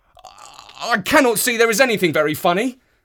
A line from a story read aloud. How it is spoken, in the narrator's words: cried, flushing up to the roots of his flaming head